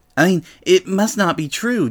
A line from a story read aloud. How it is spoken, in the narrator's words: Daisy stammered